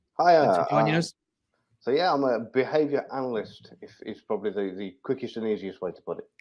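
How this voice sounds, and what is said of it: Slight West Midlands English accent. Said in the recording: “a bit of a West Midlands accent sneaking in there”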